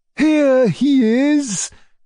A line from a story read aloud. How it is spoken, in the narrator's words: cried my uncle gleefully